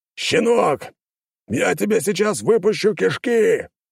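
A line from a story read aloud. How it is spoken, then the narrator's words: Bearded warrior barking. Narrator (Russian): рявкнул мне бородатый воин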